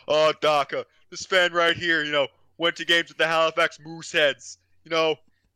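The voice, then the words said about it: Imitates another person's voice. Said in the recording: “I can't do that voice for that long. I think it hurts my throat.”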